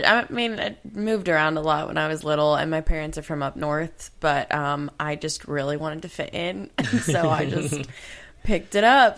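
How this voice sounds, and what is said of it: Southern US accent. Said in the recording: “you probably can't like pick up the y'all in just 6 years ... lifetime Southerner ... The accent and everything”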